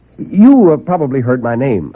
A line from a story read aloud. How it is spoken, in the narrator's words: I said